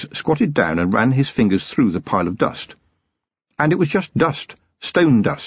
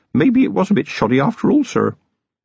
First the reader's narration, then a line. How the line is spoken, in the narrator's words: Feeny grinned nervously at Vimes and said